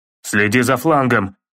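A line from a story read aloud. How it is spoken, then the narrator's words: Roaring urgent warning. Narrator (Russian): проревел Кратос, понимая, что его сын не может сражаться сразу с двумя противниками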